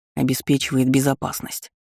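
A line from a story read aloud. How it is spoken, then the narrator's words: Grumbling mutter. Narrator (Russian): буркнул принц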